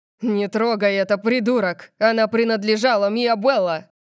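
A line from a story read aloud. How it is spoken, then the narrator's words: Roaring. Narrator (Russian): Диего взревел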